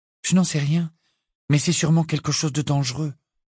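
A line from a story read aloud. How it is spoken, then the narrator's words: Categorical, firm. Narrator (French): répondit-elle d'un ton catégorique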